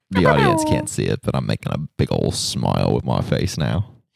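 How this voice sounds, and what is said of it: Austin Powers style British accent. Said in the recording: “like an Austin Powers accent”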